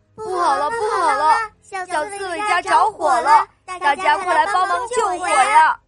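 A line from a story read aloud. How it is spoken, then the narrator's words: Shouting while running. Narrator (Chinese): 小象 边跑边喊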